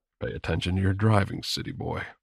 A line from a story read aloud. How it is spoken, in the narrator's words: murmured